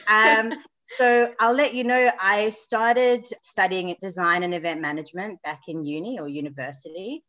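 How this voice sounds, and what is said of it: South African accent. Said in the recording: “I'm sure your listeners can hear I've got a bit of an accent... I was born in South Africa, but I'm now based in Sydney, Australia.”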